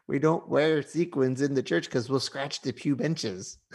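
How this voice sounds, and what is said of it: Church Lady character voice. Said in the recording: “your Church Lady impersonation ... So it sounds like George Bush to me.”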